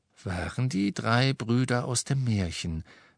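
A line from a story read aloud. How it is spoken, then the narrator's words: Plain. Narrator (German): sagte Dumbledore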